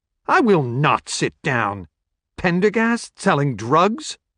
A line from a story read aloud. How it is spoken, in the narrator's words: Her tone of disgust and disbelief was turning heads in the crowded restaurant